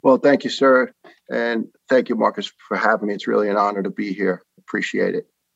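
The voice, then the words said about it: New York accent. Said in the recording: “It's not going to be hard to pick up my man's accent. ... when people from New York talk, you know they're from New York or Jersey”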